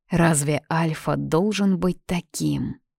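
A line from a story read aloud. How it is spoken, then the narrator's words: Whispering. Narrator (Russian): я неоднократно слышала шепот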